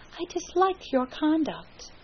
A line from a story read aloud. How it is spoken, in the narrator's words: she said calmly